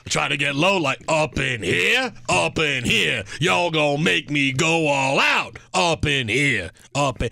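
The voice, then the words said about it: Imitates a rapper's voice. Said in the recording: “I'm doing my DMX impression. ... it sounds like DMX”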